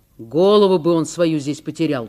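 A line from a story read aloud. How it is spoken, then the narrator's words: Grumbling. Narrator (Russian): проворчал Николай Фомич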